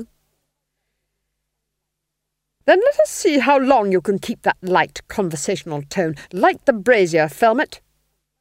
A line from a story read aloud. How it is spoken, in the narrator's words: snapped the Duchess